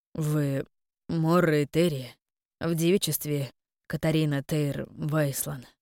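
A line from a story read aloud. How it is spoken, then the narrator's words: Strained, forced out. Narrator (Russian): выдавил Корон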